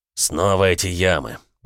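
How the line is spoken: Grumbling. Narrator (Russian): проворчал Кринг

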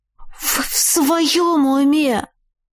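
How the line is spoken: Hissed. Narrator (Russian): прошипела я

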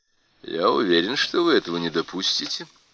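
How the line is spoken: Calm. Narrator (Russian): спокойно сказал Демирис

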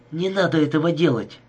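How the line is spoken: Sharp. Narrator (Russian): сказала она резко

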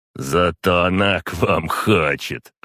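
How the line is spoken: Smirking grunt. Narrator (Russian): хмыкнул Сергей Семенович

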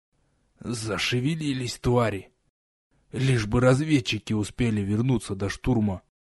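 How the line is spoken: Hoarse rasp, sick voice. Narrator (Russian): простуженным голосом прохрипел

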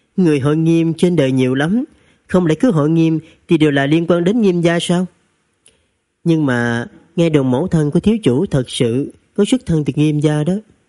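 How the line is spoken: Smiling reply. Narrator (Vietnamese): Linh Tố phu nhân mỉm cười đáp

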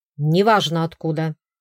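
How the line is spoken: Bark. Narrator (Russian): рявкнул Эйсон

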